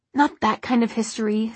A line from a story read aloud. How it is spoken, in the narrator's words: said Alec irritably